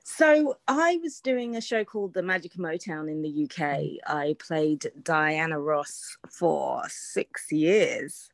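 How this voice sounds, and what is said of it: British accent. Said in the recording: “you had started out in the UK. Obviously your accent, we can tell that much”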